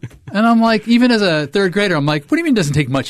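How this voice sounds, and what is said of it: Usual voice. Nothing is said of it.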